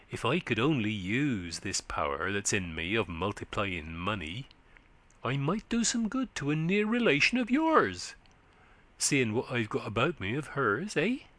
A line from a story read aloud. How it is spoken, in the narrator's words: he said, in a confidential whisper to Wild Eve